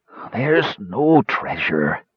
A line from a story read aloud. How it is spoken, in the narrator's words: Bren gasped